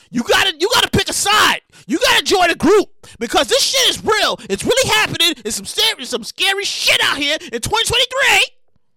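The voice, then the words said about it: Excited loud shouting. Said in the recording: “I'm all shouting and stuff. I'm sorry if I'm shouting a little loud. I get a little excited sometimes.”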